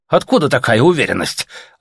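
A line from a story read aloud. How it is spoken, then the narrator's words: Offended question. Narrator (Russian): обиженно спросили у него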